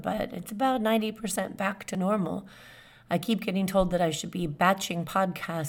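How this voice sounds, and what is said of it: Hoarse, cracking voice. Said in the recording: “I didn't have a voice, and you may still hear my voice cracking a little bit”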